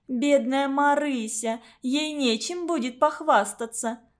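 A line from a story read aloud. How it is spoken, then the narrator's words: Cheerful laugh. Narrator (Russian): засмеялась веселая блондинка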